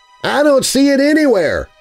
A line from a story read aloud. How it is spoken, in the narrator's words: Milo called out to his friends